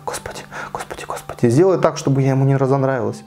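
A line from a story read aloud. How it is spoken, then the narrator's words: Hurried whisper. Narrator (Russian): она торопливо зашептала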